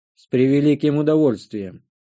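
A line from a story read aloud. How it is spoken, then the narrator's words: Grumbling. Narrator (Russian): буркнул я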